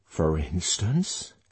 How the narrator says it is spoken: she hoarsely whispered

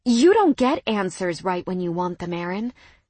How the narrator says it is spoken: I finally said, my voice steady

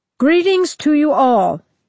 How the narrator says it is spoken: he said in a strong voice

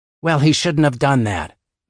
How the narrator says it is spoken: Mavis snapped

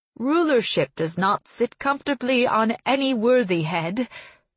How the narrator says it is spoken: he said, in the same ringing, serious voice he had spoken in before, as though this were all part of the ceremony

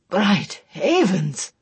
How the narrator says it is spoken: Tedric exclaimed a little uneasily

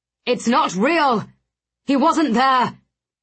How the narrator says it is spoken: Blackwood shouted in my ear

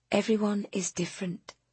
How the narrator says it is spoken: she said, softly but clearly

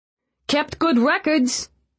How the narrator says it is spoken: Feeney called out

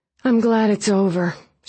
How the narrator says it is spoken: she said, sighing

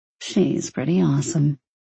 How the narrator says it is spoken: Six muttered

